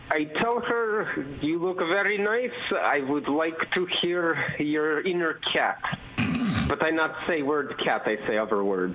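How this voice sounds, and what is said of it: Russian accent. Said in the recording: “in with his Russian accent, could sound like a mean”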